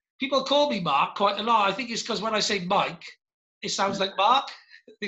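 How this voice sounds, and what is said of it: Welsh accent. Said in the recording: “It's my accent... a bit of a Welsh twang there”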